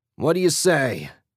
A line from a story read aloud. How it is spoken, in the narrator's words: Jack bellowed